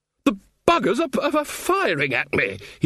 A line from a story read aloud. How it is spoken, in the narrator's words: shouted